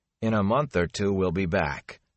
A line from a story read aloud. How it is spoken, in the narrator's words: Perrin said in a strained voice